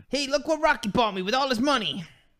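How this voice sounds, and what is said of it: Imitation of Italian-American movie character. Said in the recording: “That was my Paulie impression. It wasn't very good, but he was Italian.”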